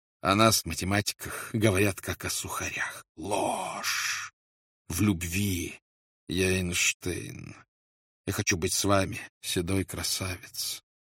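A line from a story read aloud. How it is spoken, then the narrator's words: Continuous whisper. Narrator (Russian): Она все время шептала ему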